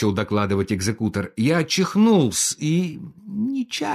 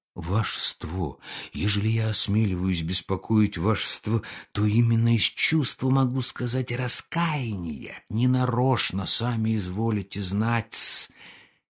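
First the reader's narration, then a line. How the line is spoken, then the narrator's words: Muttering. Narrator (Russian): Червяков забормотал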